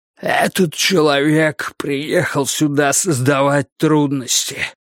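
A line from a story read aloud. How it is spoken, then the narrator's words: Hoarse wheeze. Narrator (Russian): прохрипел Вудвард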